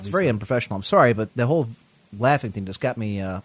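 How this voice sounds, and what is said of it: Hoarse, nearly lost voice. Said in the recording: “My voice is gone here.”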